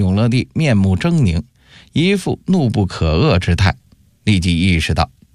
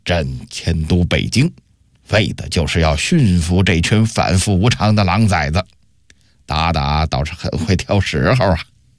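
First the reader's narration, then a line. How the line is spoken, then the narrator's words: Through gritted teeth. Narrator (Chinese): 永乐帝…咬牙切齿地说道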